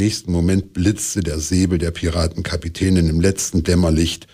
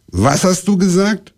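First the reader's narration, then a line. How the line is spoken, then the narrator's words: Stern question. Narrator (German): fragte streng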